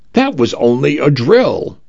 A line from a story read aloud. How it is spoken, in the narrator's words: I announced cheerfully to the empty hallways